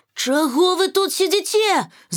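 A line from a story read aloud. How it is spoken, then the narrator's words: Woman shouting. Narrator (Belarusian): закрычала яна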